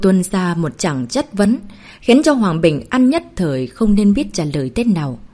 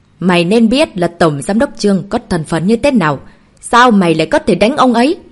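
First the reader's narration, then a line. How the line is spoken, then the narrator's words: Angry, irritated. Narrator (Vietnamese): Ông ta mang vẻ giận dữ, bực tức nói với Hạ Mạt Hàn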